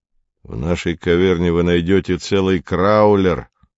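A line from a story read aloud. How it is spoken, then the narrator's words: Gloomy grumble. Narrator (Russian): мрачно проворчал Навага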